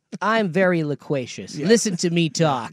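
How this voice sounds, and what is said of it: Imitates another person's voice. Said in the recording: “that's actually a pretty good impersonation of him”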